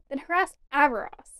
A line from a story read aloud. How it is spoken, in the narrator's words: Fimor snapped